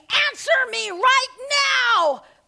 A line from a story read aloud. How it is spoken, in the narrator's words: screaming